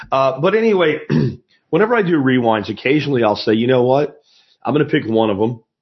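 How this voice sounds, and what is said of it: Crackly voice. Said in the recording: “my voice is still a little crackly”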